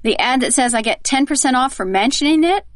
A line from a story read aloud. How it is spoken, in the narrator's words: saying with a snort and a sneer